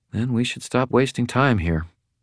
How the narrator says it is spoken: Elaine said quietly

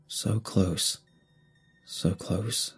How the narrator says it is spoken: I murmured

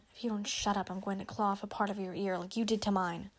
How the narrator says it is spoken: hissed

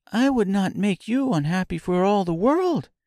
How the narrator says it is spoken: exclaimed Dorothy

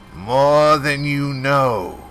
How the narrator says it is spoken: intoned with more than a jot of dread

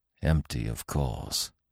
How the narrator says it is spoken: muttered

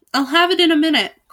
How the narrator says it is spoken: cried Albert

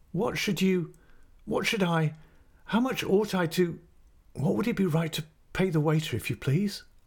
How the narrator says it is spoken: I stammered, blushing

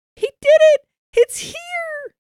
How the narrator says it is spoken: Carmen immediately screeched with excitement

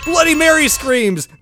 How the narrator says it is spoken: The Muppets scream

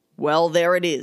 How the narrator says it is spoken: he growled

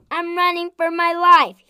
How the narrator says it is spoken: he shouted

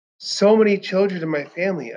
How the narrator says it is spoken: I sighed

